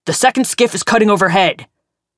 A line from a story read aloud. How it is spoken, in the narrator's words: Gregor yelled